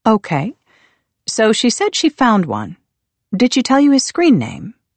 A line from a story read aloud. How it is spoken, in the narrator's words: Pearson asked